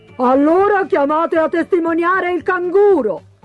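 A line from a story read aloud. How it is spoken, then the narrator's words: Pelican shouting. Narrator (Italian): gridò il pellicano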